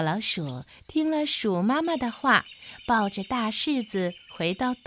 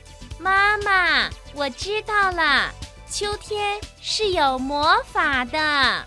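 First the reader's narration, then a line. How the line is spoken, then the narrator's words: Loud. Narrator (Chinese): 大声地说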